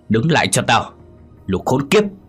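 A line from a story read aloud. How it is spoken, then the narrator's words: Coughing, barked command. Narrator (Vietnamese): Vũ ho sặc sủa, quát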